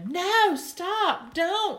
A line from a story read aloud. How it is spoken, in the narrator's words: shouted Lucille